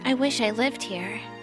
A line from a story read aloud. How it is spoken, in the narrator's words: Death said in her low, sweet voice